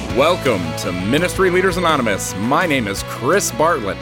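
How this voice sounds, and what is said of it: Announcer voice. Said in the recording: “we do announcer voices”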